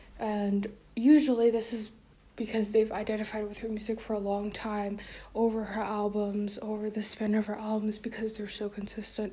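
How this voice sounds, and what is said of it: Out of breath, slightly sick voice. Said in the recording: “sound out of breath ... I'm also a little sick, and I'm also walking in circles around my living room”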